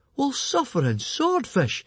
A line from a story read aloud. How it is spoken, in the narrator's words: exclaimed Fishlegs